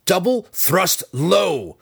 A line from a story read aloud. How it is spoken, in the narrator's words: growled